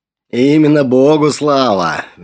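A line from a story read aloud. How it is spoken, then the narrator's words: Sudden cheerful booming. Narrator (Russian): внезапно прогремел веселый голос отца Флавиана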